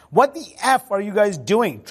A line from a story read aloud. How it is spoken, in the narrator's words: Trump screamed at Biggs